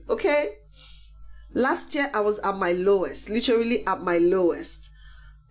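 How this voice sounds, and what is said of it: Congested voice with a cold. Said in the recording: “I've got a cold. That's why I sound like this.”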